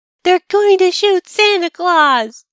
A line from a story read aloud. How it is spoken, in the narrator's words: screamed